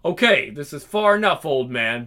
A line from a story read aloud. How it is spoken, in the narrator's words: barks the disheveled Sam Burke